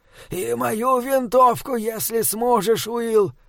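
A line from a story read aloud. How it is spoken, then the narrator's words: Trembling voice. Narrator (Russian): дрожащим голосом произнес Эразмус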